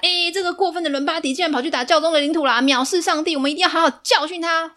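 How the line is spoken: Shouting. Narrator (Chinese): 查理曼大喊

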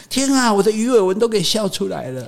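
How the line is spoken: Laughing young man. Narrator (Chinese): 帅哥导游笑笑笑说

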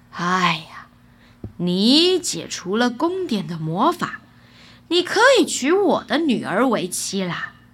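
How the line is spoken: Sighing king. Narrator (Chinese): 国王叹了一口气 说

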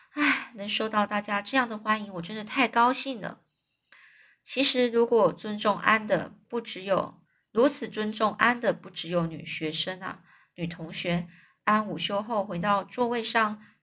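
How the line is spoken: Emotional sighing. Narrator (Chinese): 安 当着玛丽拉的面，叹就是哀叹的感叹的说

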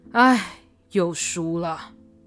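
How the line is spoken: Heavy sigh. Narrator (Chinese): 徐福贵也大叹了一声

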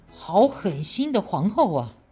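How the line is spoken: Furious outburst. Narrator (Chinese): 高宗顿时大怒

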